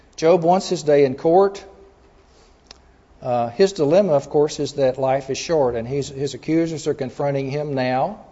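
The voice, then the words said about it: Texas accent. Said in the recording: “that Texas accent's coming through, isn't it?”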